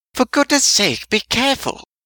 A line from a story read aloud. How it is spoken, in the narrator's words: Weasley … cries of